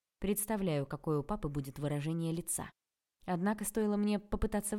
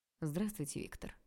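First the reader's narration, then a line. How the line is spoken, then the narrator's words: Ruler's perfectly calm voice. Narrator (Russian): ответил владыка совершенно спокойным голосом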